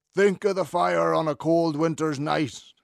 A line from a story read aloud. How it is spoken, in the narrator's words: would roar